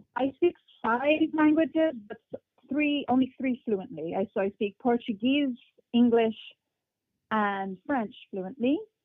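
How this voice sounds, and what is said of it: Hard-to-place mixed accent in English. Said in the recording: “I have an accent in English, which no one can really pinpoint where it's from ... my accent just became very mixed”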